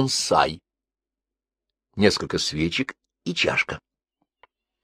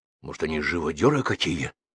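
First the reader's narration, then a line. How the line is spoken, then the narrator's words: Frightened whisper. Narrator (Russian): испуганно шепнул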